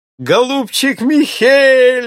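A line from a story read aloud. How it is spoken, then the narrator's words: Shouting. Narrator (Russian): закричал Эльвард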